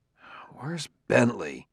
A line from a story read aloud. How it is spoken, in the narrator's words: he frowned and muttered in a low voice